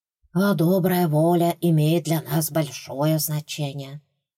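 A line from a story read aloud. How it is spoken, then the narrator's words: Creature's sigh. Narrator (Russian): вздохнуло другое существо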